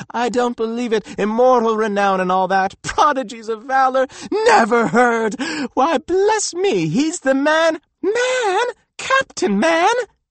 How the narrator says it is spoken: screamed some little feminine interloper from the farthest corner of the room

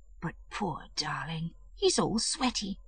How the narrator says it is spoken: said in a whisper

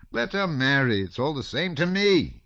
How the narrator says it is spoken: he screamed in the same piercing tone as when parting from his son

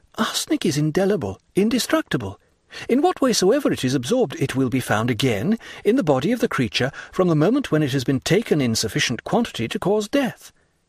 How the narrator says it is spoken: exclaimed suddenly

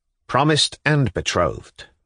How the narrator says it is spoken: Mavriky Nikolaevich assented firmly and clearly

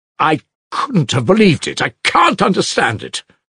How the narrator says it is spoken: Alyosha cried suddenly in distress

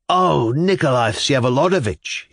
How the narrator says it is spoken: exclaimed

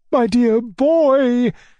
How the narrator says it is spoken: cried my uncle

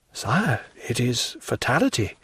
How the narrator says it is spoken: murmured the minister, feeling that such a pressure, however light for destiny, was sufficient to overwhelm a man

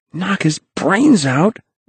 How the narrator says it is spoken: gasped Henry Hank

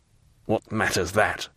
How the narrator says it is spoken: muttered Fernand

